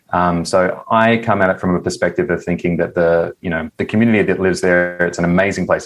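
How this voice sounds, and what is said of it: Australian accent. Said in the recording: “I think everyone can tell from your accent, but you are not from the United States ... My accent probably gives it away. So I grew up in Western Australia”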